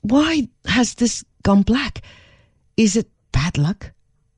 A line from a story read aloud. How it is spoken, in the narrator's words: She could not understand this at all and exclaimed